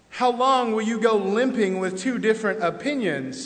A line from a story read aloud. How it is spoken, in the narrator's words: says Elijah